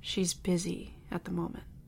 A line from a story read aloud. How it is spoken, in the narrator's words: my dad replied, his voice hard